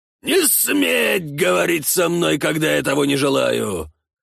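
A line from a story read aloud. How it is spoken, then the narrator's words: Prince's enraged roar. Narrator (Russian): взревел киевский князь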